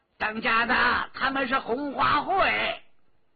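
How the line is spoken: Calling out. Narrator (Chinese): 关明梅叫道

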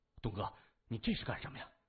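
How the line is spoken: Anxious. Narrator (Chinese): 前者焦急地说

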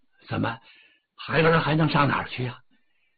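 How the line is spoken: Sighing. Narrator (Chinese): 哪吒叹口气呀

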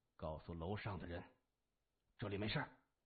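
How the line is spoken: Deep, low voice. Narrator (Chinese): 谢文东沉声说

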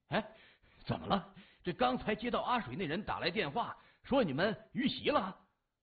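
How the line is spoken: Panting question. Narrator (Chinese): 老鬼喘着粗气问

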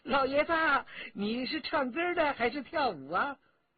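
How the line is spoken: Laughing speech. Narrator (Chinese): 香香公主笑着说

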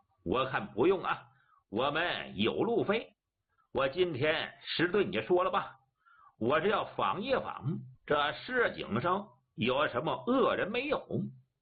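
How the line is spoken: Laughing. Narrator (Chinese): 张明笑了

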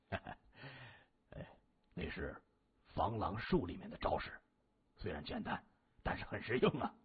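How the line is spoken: Chuckling low voice. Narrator (Chinese): 木子呵呵的一笑，他对众人低声介绍着

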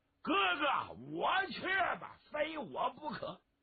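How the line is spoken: Loud shout. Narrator (Chinese): 有人高喊一声

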